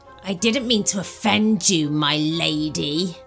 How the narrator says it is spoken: he sneered

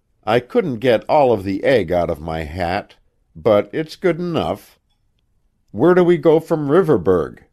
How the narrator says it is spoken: Jim gave a groan of mock despair

